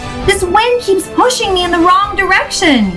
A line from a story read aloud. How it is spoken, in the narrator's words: yelled Daisy, scrunching up her face with effort